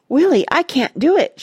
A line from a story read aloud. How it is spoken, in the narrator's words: gasped, turning the chalk-white face